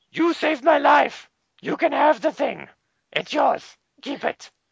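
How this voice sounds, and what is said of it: Imitated character voice. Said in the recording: “Your Storm Shadow impersonation gets better and better.”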